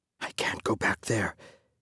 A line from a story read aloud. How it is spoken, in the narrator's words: his father whispered